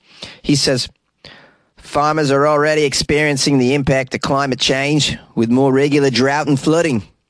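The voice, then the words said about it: Put-on New Zealand accent. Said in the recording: “How about that for a New Zealand accent?”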